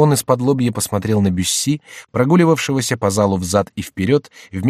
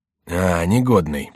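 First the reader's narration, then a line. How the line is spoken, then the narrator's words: Grumbling. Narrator (Russian): проворчал Генрих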